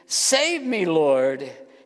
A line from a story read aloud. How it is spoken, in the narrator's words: cried out, he shouted